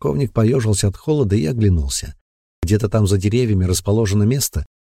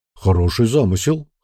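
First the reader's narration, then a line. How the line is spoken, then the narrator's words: Snorting chuckle. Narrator (Russian): хмыкнул Бран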